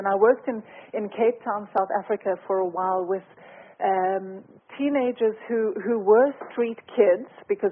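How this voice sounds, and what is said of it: South African accent. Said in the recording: “As you can hear from my accent, I'm South African”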